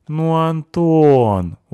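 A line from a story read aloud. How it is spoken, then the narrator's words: Reproachful drawl. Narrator (Russian): укоризненно протянула Анюта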